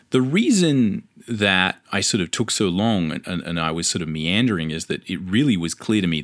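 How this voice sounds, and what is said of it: Australian accent. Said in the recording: “If you can tell from my accent, there's no local Australian comic book market”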